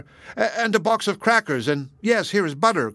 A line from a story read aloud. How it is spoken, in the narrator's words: cried Worth